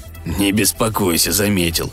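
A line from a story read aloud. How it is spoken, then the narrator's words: Snorted, robot. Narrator (Russian): фыркнул робот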